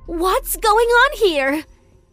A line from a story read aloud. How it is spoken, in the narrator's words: She screamed angrily